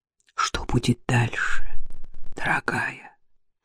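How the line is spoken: Whisper into ear. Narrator (Russian): прошептал он ей на ухо

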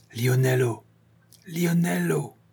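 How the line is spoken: Muffled calling. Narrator (French): il appela deux fois, d'une voix sourde

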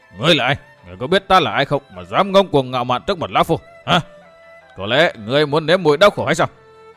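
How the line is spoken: Angry growl. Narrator (Vietnamese): đôi con mắt ngáo bỗng dựng ngược lên, gầm gừ

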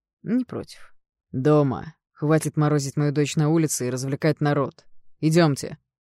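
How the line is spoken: Growling father. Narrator (Russian): прорычал папа

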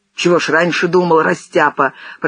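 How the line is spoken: Hissed. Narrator (Russian): прошипел Зенин

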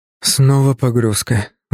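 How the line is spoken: Weary sigh. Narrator (Russian): вздохнул я, чувствуя, как устали мышцы

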